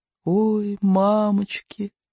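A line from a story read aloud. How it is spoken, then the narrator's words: Whispering again. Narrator (Russian): снова шепнул Икинг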